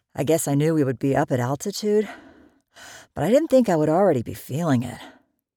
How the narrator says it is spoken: Garrett said while panting

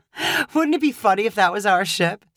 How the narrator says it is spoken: Savannah said with a carefree laugh

